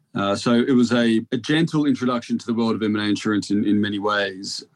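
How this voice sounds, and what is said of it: Australian accent, softened. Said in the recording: “perhaps even my accent, although it's 10 years old now, being in the UK for that long, I'm Australian”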